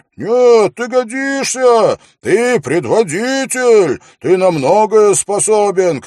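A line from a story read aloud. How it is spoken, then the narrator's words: Shout from someone. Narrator (Russian): крикнул кто-то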